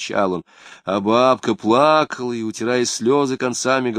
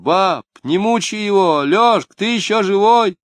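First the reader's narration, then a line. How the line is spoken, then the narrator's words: Shouting. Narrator (Russian): Клавдия кричала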